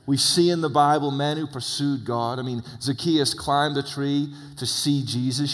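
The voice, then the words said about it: English accent. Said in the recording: “I have an accent... messed up English guy living in America for 20 years”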